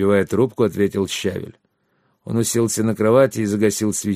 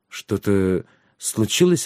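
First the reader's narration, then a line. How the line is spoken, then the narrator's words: Timid question. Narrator (Russian): робко спросил Трикс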